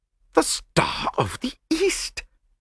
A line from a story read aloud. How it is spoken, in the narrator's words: gasped Lord Yardley